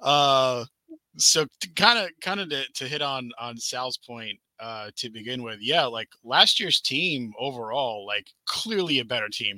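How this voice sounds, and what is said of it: Hoarse, strained voice. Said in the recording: “my voice is a little different today because I blew it out screaming at the game in the stadium yesterday”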